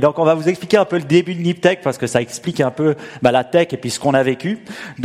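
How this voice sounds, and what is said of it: Swiss French accent, slow speech. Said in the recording (French): “vous entendez mon accent Oui, je suis suisse. Alors, si je parle un peu lentement”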